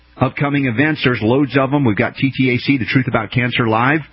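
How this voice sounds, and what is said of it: American English accent. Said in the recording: “my English, American English accent”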